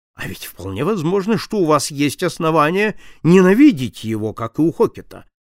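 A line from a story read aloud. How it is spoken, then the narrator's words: Detective, sharp. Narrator (Russian): резко сказал сыщик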